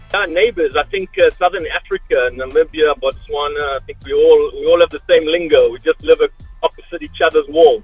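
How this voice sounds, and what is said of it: Southern African accent. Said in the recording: “I can hear that South African accent coming through there ... we do sound very similar”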